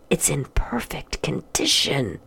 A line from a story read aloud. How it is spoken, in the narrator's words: Homer whispered